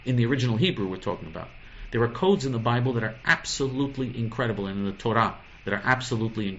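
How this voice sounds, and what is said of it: Usual voice. Nothing is said of it.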